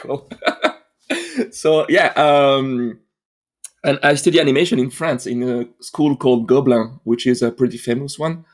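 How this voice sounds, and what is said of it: French accent, smooth. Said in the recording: “as you can hear my accent, my omelette du fromage accent ... You're very Frenchy ... Very, very smooth.”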